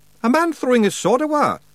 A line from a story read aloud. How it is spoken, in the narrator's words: yelled Rob